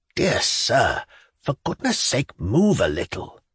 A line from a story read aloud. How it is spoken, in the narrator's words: whispered the unhappy Ivan Andreyitch